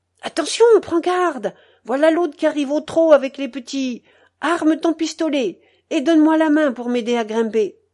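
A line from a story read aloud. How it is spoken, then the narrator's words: Sudden shout. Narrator (French): il me cria tout à coup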